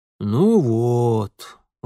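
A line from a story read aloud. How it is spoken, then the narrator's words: Satisfied booming. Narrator (Russian): удовлетворенно прогудел он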